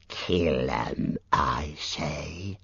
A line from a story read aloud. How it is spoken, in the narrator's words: hissed a fourth